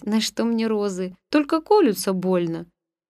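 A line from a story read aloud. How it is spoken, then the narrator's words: Laughing. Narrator (Russian): Я смеялась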